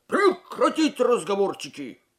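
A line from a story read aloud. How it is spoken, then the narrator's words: Barked order. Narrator (Russian): рявкнул сержант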